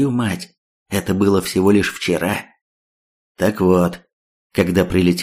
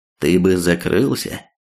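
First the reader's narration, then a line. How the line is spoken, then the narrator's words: Calm reply. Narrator (Russian): Вполне спокойно ответил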